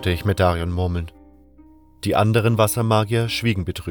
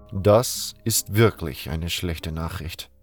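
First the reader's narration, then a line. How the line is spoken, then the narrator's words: Sad. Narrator (German): sagte Saturas traurig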